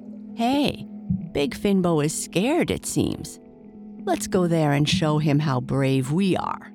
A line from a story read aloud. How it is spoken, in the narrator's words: said all his tiny friends, laughing at Finbo